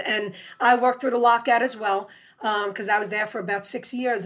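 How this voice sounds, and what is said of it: New York accent, raspy voice. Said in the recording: “my accent ... what part of New York are you from? ... my accent or my raspy voice”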